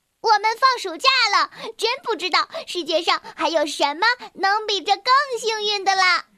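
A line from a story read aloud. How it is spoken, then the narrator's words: Noisy excited child yelling. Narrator (Chinese): 一个淘气包哇哇的叫着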